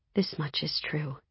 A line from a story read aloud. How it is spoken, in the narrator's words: I whispered to myself